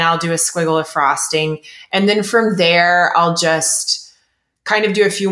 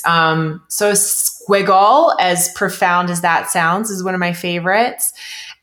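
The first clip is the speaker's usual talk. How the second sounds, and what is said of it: Sarcastic tone. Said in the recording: “I'm being sarcastic, by the way, it's not profound at all.”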